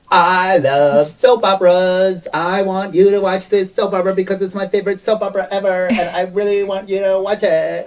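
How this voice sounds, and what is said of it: Imitates another person's voice. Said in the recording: “is that her actual voice? ... this is exactly what Alexa sounds like ... can you do that voice again?”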